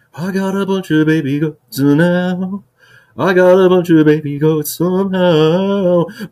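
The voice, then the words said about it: Imitates another person's singing voice. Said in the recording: “I'm going to do an Elvis Presley impersonation.”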